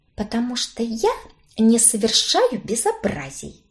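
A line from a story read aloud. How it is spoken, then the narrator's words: Whisper. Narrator (Russian): прошептала я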